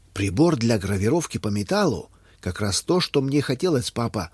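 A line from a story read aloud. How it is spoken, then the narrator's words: Joyful exclamation. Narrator (Russian): радостно воскликнул Юстин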